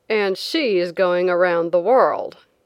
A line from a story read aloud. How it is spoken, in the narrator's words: one man said sneeringly